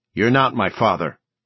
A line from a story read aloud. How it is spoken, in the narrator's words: Leandro said sharply